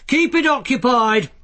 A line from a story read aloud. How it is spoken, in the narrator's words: Carrot shouted